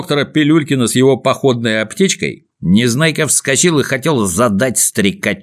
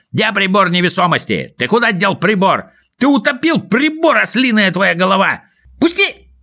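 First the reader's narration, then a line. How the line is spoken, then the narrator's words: Shrieking. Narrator (Russian): Завизжал Незнайка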